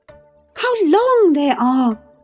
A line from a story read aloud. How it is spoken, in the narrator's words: she exclaimed